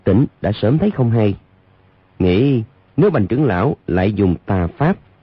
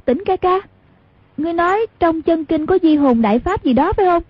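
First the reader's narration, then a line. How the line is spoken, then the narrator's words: Half-dazed cry. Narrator (Vietnamese): thần trí nửa mê nửa tỉnh ấy, ... lập tức như tỉnh mộng kêu lên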